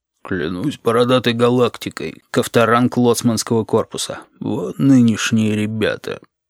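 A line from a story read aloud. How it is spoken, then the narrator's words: Deep guttural whisper. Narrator (Russian): сказал вслед утробным шепотом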